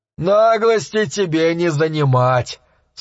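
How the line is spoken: Blacksmith laughing. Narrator (Russian): снова засмеялся кузнец

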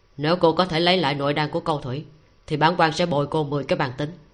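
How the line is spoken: Cold. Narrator (Vietnamese): Tống Lập Ngôn cất giọng lạnh lùng nói

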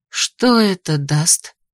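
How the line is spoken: Tired woman. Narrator (Russian): устало спросила женщина

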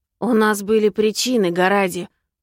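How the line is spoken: Through gritted teeth. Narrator (Russian): процедил Лузарус

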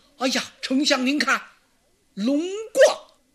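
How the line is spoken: Shouting. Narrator (Chinese): 有人喊了一声

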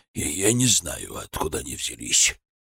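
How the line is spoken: Hoarse. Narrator (Russian): хрипло начал Сойкин

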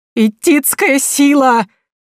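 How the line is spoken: Delighted yelling. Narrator (Russian): Теперь Евгения орала больше от восторга, чем от страха

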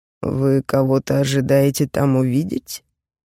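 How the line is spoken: Mocking question. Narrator (Russian): насмешливо поинтересовался Кроу

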